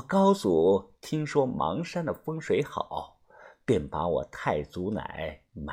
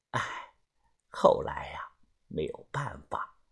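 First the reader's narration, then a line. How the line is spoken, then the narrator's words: Old woman sighing. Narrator (Chinese): 老太太叹了声气，继续的说道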